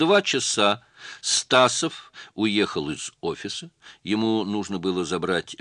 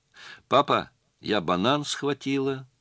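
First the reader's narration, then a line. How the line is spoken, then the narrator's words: Calm. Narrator (Russian): спокойно сообщила она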